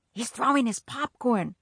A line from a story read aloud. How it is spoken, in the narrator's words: I whispered